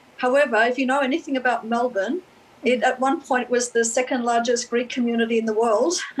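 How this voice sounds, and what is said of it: Australian accent. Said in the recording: “I don't know if you've picked up my accent, but I'm from Australia.”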